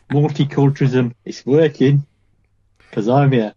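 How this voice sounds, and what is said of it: Imitates another person's voice. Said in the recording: “I did an impression of Prince Charles's wife then”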